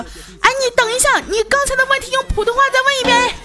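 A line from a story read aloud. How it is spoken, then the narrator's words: Shouting. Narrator (Chinese): 我洪坤啊，直接大喊说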